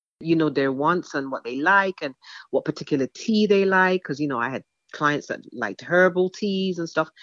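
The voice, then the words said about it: English accent. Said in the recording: “they would hear my accent, and they'd want to talk about where I was from ... immigrated from England to New York when she was 18”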